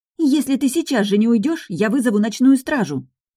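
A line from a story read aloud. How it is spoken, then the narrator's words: Indignant exclamation. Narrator (Russian): возмущенно воскликнула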